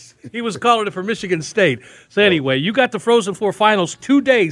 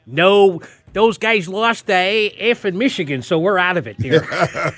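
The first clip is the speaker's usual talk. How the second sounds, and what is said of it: Exaggerated Michigan accent impression. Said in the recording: “his hardcore Michigan accent”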